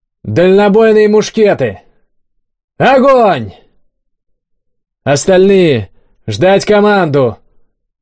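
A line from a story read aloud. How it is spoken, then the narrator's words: Shouted command. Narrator (Russian): выкрикнул кабан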